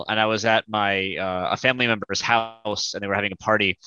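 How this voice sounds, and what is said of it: American accent, not Australian. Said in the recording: “accent is significantly different... I'm not Australian... I have not lived lived in the States since I was 21”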